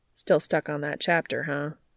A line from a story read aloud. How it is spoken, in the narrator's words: Cass sighs